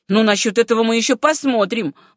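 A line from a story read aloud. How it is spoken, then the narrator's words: Exclaimed. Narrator (Russian): воскликнул Сэм Райт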